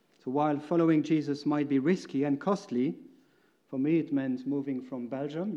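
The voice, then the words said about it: Slightly unusual foreign accent. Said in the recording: “my accent is a bit strange”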